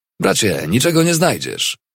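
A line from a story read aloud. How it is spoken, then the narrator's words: Cheerful call. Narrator (Polish): Pewien dealer uśmiechał się szeroko, do sierżanta zawołał wesoło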